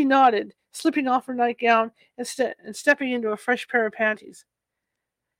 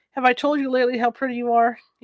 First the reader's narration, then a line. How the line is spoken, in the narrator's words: asked